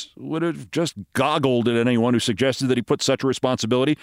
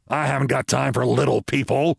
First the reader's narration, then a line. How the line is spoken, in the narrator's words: Ross snarled